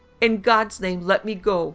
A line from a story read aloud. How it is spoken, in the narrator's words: his wife screamed